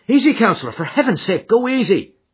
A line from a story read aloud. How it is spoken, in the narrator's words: he cried